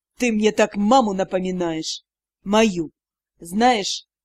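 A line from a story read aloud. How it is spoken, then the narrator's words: Near-growl through clenched teeth. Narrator (Russian): Почти рычание, сквозь стиснутые зубы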